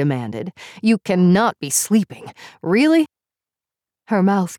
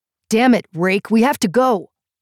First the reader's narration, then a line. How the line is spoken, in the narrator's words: he yelled